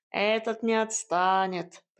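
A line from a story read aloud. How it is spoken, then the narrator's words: Grumbled. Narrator (Russian): проворчал кот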